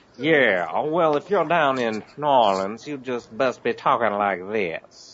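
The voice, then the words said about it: Put-on New Orleans accent. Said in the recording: “good accent ... talking like they do in New Orleans ... not quite slow enough”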